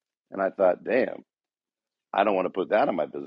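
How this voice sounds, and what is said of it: Usual voice. Nothing is said of it.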